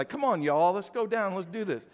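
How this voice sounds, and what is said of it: Put-on country twang. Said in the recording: “They had a little bit of a kind of a country twang to their voice... And you would start talking that way.”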